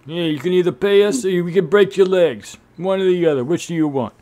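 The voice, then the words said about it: Bad Italian-American accent. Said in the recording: “My bad Italian-American accent.”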